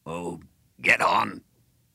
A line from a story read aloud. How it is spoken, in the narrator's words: For the first time, he raised his voice